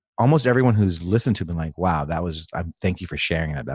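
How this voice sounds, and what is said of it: Deep, sultry voice. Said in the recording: “you do have a sexy podcast voice ... you've matured into this deep, sultry voice”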